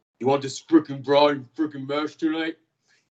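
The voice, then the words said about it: Thick put-on New York accent. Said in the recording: “My trainer has a very thick, like, New York accent. ... I really like that New York accent. It's much better than mine.”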